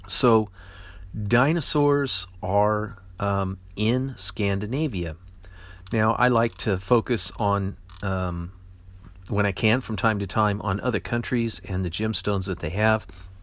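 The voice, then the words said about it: Strained, fading voice. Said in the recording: “I'm just losing my voice again”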